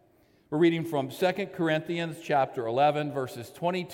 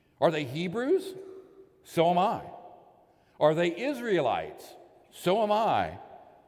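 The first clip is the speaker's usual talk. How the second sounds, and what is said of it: Sarcastic reading. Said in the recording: “the appropriate level of what I believe sarcasm”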